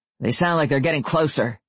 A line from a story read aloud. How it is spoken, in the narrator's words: Gary said